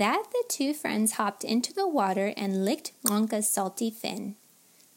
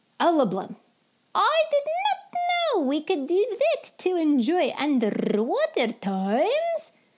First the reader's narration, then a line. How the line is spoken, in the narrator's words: Khawler yelped with joy